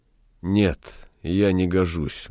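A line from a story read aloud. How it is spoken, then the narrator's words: Sad. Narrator (Russian): грустно ответил Галеран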